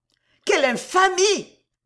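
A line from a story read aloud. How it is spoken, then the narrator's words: Indignant shout. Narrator (French): cria sœur Marie-Ange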